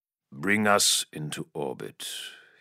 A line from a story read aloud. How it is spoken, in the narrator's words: ordered coldly